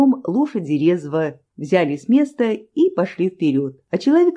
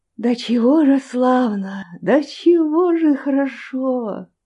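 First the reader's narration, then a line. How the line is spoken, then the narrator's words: Exclaimed under breath. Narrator (Russian): воскликнул он вполголоса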